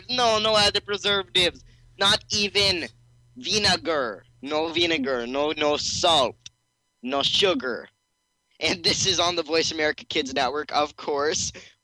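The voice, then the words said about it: Put-on accent. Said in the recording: “I just backed out of that accent.”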